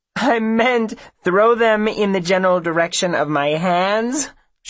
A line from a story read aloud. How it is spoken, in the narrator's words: she says, laughing